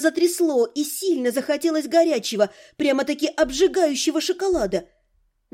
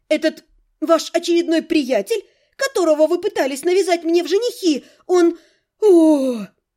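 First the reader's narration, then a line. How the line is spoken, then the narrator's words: Loud exasperated groan. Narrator (Russian): У меня не хватило слов, и я громко застонала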